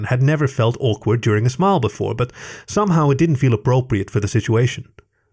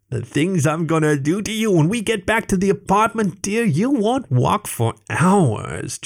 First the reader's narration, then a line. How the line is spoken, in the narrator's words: Jesse continued, with a shrill laugh that resonated through the restaurant